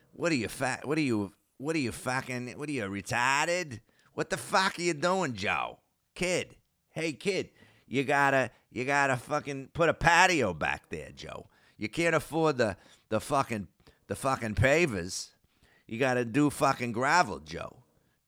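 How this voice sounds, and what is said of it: Imitated Boston accent. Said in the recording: “he's got that Boston accent, even though he lives in New Hampshire, but he's from Waltham, Mass.”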